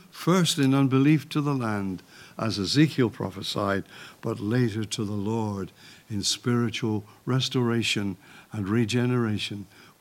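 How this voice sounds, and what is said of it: Croaky, tired older voice. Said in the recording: “I'm sorry my voice is croaky, and I'm sorry if I seem tired”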